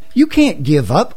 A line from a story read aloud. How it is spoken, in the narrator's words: gasped his advisors